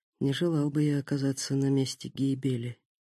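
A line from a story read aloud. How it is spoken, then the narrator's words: Whispered to himself. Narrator (Russian): Такеда прошептав про себя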